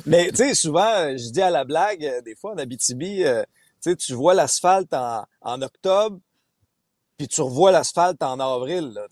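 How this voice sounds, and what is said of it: Abitibi Quebec French accent. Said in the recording (French): “j'ai grandi en Abitibi ... c'est un très bel accent ... Moi, j'en suis très fier de mon accent.”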